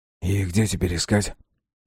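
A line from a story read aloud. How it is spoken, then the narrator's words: Whispered question. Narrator (Russian): спросил он почему-то шепотом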